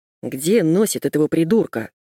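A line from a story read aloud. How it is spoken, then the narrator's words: Grumbling. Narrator (Russian): проворчал он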